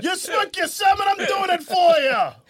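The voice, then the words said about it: Put-on Italian New York accent. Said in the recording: “My accent's changed as well... is he gone Italian?... Is he New York?”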